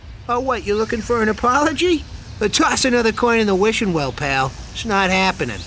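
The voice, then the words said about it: Character voice with New York-type accent. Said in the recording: “what kind of an accent is that? Is it, it's not Bronx, is it? ... it sounds like someone kind of doing an Adam Sandler ... a New York accent?”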